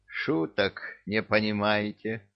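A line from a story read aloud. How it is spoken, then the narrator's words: Sighing. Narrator (Russian): вздохнула баба-яга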